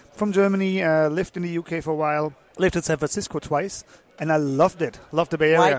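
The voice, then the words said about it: Mild German accent. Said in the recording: “He sounds German ... if I don't have a too big of a German accent”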